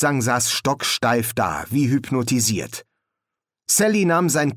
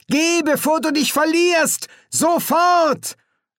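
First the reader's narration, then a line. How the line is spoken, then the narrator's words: Calling out. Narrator (German): rief sie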